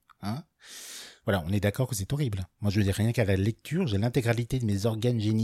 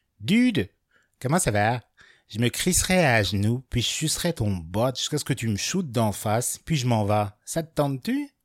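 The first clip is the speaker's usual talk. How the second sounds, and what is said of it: Attempted Québécois French accent. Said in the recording (French): “le message Grindr québécois ... je sais pas faire l'accent, mais je vais quand même essayer de vous faire dans le ton”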